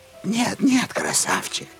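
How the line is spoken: Cooing female voice. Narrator (Russian): заворковала она

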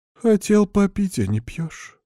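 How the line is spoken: Sleepy voice. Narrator (Russian): сонным голосом продолжает она

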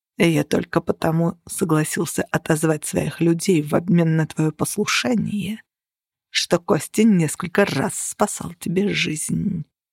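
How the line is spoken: Through gritted teeth. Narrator (Russian): процедил Грегор

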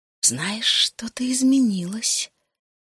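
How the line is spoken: Quiet. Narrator (Russian): тихо сказала она

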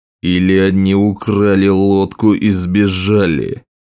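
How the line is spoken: Growled. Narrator (Russian): прорычал король Скорбь

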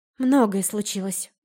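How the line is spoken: Sighing. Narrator (Russian): вздохнула я

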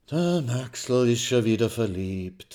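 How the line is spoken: Sighing. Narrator (German): seufzt die schwarze Hermine

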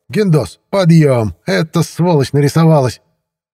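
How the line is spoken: Yelling. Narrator (Russian): как они на меня орали

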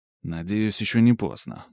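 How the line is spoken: Silent inner muttering. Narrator (Russian): мысленно пробормотал я

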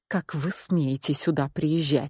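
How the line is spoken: Hiss through clenched teeth. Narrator (Russian): сквозь зубы прошипела я

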